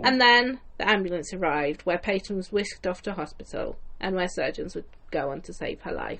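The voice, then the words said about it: Croaky, strained voice. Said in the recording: “my voice is giving up ... You're getting a bit croaky.”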